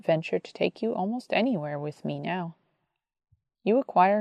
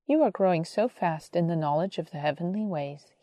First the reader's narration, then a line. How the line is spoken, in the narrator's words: he said